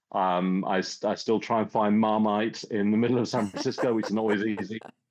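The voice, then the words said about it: English accent. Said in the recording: “I had a very English upbringing ... I've kept my accent”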